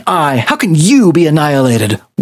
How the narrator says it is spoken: Werther spat

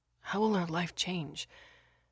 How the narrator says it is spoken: asked quietly

